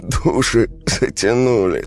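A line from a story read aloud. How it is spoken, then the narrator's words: Strained exhale. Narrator (Russian): с усилием выдохнул Марк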